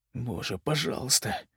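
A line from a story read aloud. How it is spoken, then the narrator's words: Quiet repeating. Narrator (Russian): тихо повторял Даик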